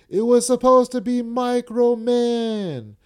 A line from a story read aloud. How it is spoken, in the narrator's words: yells